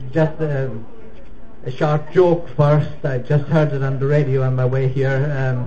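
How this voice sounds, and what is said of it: Irish accent. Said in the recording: “as you can tell from my accent, ... I'm from Ireland originally.”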